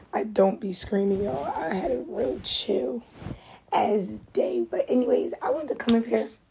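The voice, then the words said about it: Strained, cracking voice, losing voice. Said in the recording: “my voice just keep changing. I keep losing my voice.”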